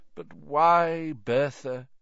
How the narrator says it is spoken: said Dumbledore sadly

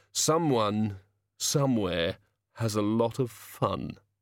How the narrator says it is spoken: he said wistfully

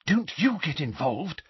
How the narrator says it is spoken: Hermione whispered urgently to him

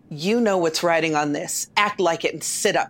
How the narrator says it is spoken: said coldly

